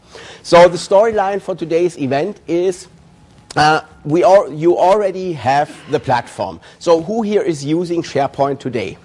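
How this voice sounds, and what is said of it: German accent, slightly sick voice. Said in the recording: “You can hear that from my accent. I always sound like the bad guy in a World War II movie ... I got a little bit sick last week, so my voice is still a little bit under the weather”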